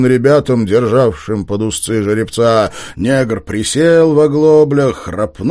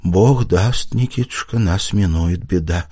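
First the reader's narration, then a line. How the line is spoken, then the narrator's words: Quiet, measured mother. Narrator (Russian): проговорила матушка тихо и раздельно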